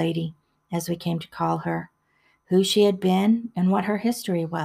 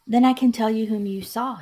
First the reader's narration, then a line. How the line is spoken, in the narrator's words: she exclaimed